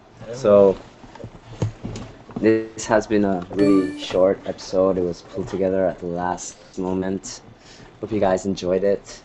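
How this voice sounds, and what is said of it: Weird-sounding sick voice. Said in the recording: “my voice sounds so weird, it's because I'm really sick”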